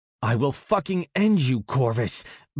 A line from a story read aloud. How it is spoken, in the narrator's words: Bast gnarled through gritted teeth